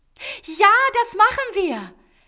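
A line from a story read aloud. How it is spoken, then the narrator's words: Called out. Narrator (German): rief Yumiko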